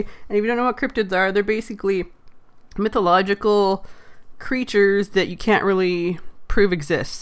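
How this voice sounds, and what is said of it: Congested, low-pitched sick voice. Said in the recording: “talk at a lower register so that I don't aggravate the cough that's in my throat, because head colds suck ... I've got a funky little accent going on today”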